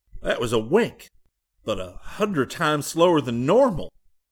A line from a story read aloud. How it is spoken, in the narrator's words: Ferris exclaimed